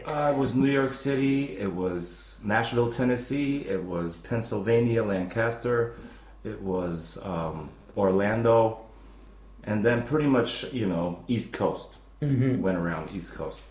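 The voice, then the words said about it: American English accent. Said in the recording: “I know I have an American accent.”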